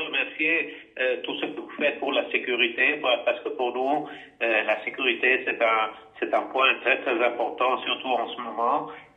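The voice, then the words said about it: Italian accent speaking French. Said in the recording (French): “accent euh, tel que l'accent italien”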